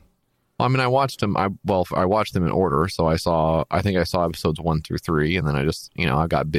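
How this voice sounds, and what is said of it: Usual voice. Nothing is said of it.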